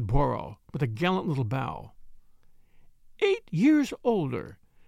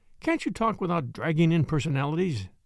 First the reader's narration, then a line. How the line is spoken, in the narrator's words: I said irritably